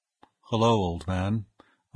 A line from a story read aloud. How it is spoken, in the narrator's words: I murmured in a death bedside voice